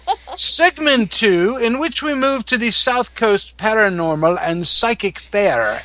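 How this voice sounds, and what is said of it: Unconvincing put-on accent. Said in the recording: “you should really stop trying to do that accent, because it's just not working for you.”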